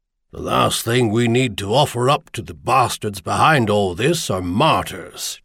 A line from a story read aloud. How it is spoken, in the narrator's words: Sherman growled